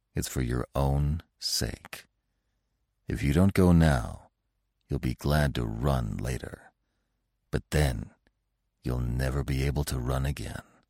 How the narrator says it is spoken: said Bambi, still more softly

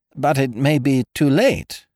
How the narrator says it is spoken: I faltered, with the last feeble effort at self-preservation

